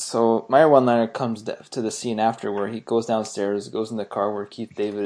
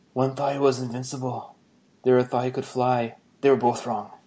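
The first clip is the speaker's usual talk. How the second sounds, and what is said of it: Steven Seagal impression. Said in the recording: “I'm gonna try doing my best Seagal impression here.”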